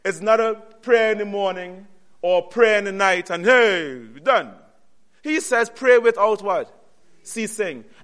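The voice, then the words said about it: Noticeable accent coming through. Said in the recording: “my accent is coming out”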